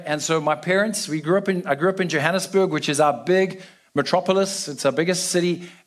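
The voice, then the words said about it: South African accent. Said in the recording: “as you can tell from my accent, I'm from South Africa”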